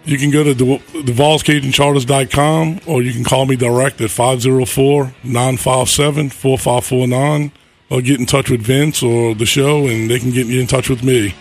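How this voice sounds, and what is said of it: New Orleans Cajun accent. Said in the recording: “My accent's bad, but it's not that bad. ... you still get that New Orleans brang in there when you start talking.”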